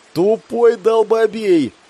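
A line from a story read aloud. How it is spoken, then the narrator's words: Joyful shout. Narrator (Russian): радостно прокричал я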